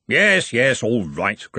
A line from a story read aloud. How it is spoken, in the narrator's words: grumbled Ridcully